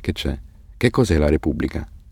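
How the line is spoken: Whispered. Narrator (Italian): bisbigliò Hassan

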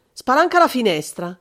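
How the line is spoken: Shouted immediately. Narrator (Italian): De Vincenzi gridò subito

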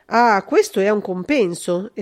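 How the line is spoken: Pleased exclamation. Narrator (Italian): esclamò Tiburzio, vedendo le monetine d'argento che passavano dalle mani d'Augusto nelle sue saccocce

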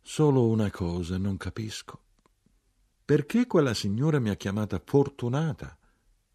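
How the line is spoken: Very quiet remark. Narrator (Italian): Mia madre molto piano osservò

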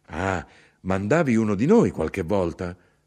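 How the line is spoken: Exclaimed. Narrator (Italian): io esclamai

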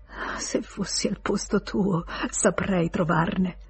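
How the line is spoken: Whispering. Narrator (Italian): la sentì bisbigliare

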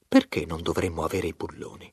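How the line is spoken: Reasonable man's tone. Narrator (Italian): disse in tono ragionevole il fabbricante di caldaie

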